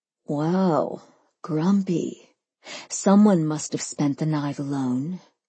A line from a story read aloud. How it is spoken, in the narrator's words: Sophia murmured to Neil